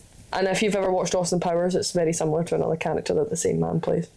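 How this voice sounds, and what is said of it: Glaswegian Scottish accent. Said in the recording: “In case you didn't know where my accent was from. ... Yeah, from Glasgow. She's a Glaswegian.”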